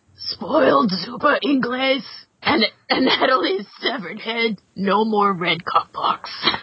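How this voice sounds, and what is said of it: Reads in a villain character voice. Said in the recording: “read it in your best haiku voice ... Wilson Fisk. ... do it in a Wilson Fisk voice.”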